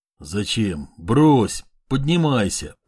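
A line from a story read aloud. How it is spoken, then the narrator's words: Straining mutter. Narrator (Russian): пробормотал он, силясь поднять тяжелую, как чугун, руку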